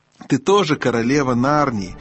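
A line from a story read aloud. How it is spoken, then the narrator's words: Mocking, affectionate question. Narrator (Russian): насмешливо и ласково спросила колдунья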